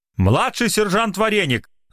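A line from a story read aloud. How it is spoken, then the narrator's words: Irritated shout. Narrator (Russian): раздраженно выкрикнул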